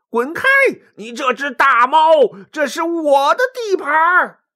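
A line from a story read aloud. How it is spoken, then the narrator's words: Furious roar. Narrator (Chinese): 毛驴顿时大怒，大吼一声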